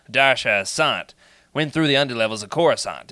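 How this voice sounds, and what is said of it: New York gangster-style accent. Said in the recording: “I think he's got like a New York accent. ... it's kind of like a 1940s gangster thing”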